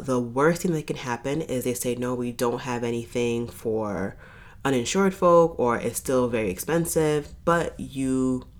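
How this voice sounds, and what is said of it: Congested, stuffy nasal voice. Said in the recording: “hear the congestion in my voice ... i am fighting for my life with my sinuses”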